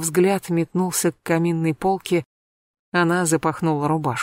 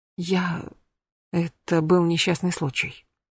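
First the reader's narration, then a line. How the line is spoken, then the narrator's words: Barely audible whisper. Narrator (Russian): прошептала она еле слышно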